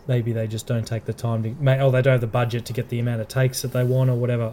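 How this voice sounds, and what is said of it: Australian accent. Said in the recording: “our accent... Australian accent”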